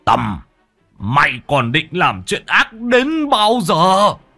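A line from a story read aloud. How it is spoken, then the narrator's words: Roaring. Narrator (Vietnamese): Ông Bá Hùm gầm lên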